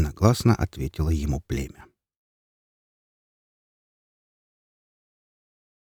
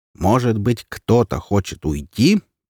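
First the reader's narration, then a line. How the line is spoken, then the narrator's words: Shouting wolf. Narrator (Russian): прокричал волк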